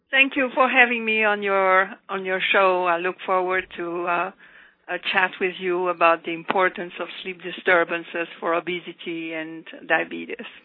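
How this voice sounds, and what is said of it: Lovely Belgian accent. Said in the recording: “She has a lovely accent. She's originally from Belgium.”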